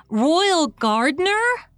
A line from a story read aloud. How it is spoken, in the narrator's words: she exclaimed